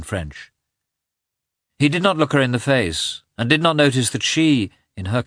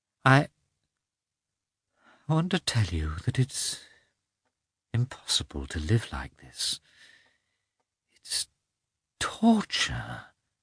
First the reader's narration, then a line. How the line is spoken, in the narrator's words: she muttered